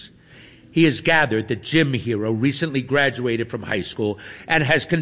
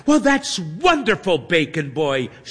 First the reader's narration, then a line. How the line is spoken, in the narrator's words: she exclaims